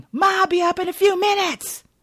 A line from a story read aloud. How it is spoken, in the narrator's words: out of frustration, he yells at the ceiling